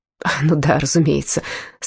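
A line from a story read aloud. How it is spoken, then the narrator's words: Relieved sigh. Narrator (Russian): с явным облегчением вздохнул он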